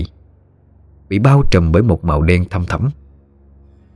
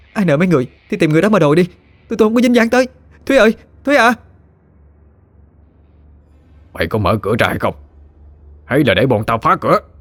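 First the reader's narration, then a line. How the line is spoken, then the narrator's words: Harsh menacing growl. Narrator (Vietnamese): Một tên có vẻ bậm trợn nhất trong đám người gằn giọng nói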